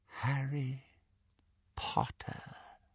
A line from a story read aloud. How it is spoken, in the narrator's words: he said, very softly